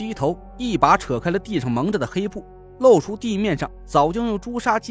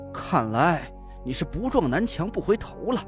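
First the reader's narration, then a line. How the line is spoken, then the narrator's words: Through gritted teeth. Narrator (Chinese): 我咬牙道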